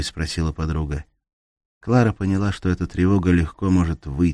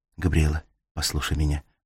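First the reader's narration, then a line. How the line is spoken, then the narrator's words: Whisper. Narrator (Russian): прошептала она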